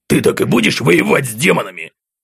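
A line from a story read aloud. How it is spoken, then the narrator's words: Contemptuous bark, inner voice. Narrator (Russian): Презрительно рявкнул в голове Акакий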